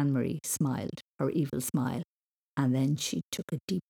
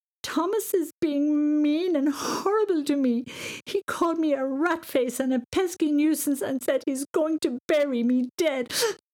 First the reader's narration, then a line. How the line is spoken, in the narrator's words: she screamed